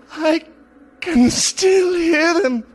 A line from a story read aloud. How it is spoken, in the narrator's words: He cried